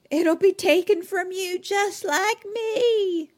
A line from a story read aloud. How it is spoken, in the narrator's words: old lady's yelling at her